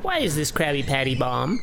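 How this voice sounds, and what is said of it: SpongeBob impression. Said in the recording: “It's so evil, that voice... It's close to SpongeBob... It is kind of a SpongeBob voice... That isn't a good impression of him”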